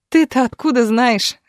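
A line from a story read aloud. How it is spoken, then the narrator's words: Laughing. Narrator (Russian): рассмеялась Галина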